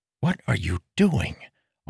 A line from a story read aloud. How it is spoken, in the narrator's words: Arador asked quietly